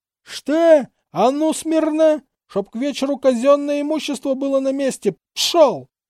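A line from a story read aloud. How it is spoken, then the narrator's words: Vigorous yelling. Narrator (Russian): усердно он на кого-то орал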